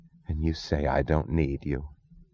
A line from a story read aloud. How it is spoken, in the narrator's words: She whispered